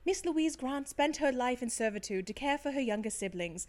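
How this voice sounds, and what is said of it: Put-on accent while reading aloud. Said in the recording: “I've gone into an accent. ... it's slipping back to my regular voice.”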